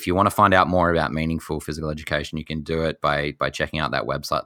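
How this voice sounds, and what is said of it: Australian accent. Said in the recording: “another Australian here in Canada. to hear that accent”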